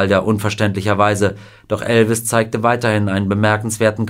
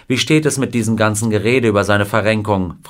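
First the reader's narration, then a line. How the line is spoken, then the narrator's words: Plain. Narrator (German): fragte ihn Wilder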